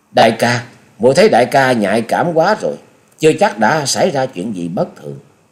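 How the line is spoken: Smiling. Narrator (Vietnamese): Chung Nhật Tự mỉm cười nói

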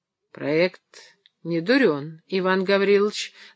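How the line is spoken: Thoughtful reply. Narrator (Russian): задумчиво ответил Акаемов

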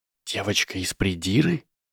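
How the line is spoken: Incredulous whisper. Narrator (Russian): недоверчиво прошептал Гарри

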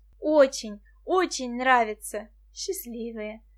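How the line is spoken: Sighing. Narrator (Russian): вздохнула Валерия Васильевна

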